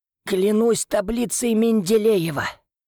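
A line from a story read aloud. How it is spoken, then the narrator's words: Forced out. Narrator (Russian): выдавил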